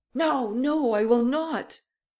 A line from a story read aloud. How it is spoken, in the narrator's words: Varin recoiled in terror and cried